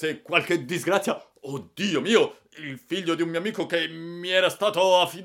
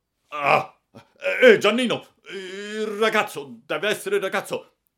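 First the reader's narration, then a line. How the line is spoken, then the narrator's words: Sudden frantic outburst. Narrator (Italian): esclamò a un tratto come fuori di sé il signor Clodoveo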